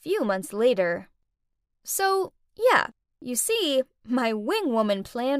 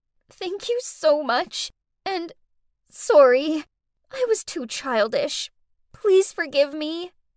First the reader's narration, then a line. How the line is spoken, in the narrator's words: through blurry eyes, Faye sobbed out